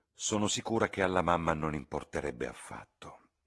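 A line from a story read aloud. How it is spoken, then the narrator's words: Plain. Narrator (Italian): disse Lucy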